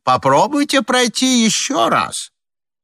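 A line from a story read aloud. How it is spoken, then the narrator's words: Shouting through closed door. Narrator (Russian): из-за запертой двери снова кричал людям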